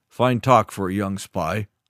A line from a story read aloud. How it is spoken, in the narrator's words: smith owner said with a grunt